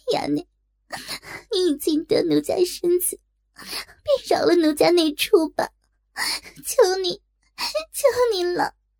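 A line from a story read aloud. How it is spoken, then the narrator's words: Frantic, ashamed crying. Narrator (Chinese): 若真大急，粉脸羞红耳根，哭道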